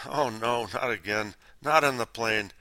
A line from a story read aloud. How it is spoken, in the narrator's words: groaned